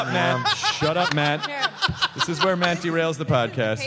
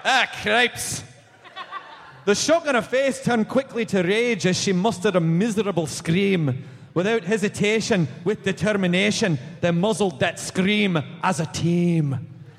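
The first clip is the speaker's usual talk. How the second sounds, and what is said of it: Put-on Scottish accent. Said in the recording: “Read it to the children in a Scottish accent.”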